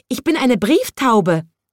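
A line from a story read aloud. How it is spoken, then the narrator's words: Squeaky voice. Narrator (German): piepst die Urlaubsvertretung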